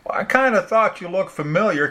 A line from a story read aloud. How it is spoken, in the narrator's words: Kitty said excitedly